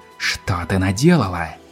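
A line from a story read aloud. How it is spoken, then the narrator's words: Spiteful hiss. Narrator (Russian): принцесса злобно прошипела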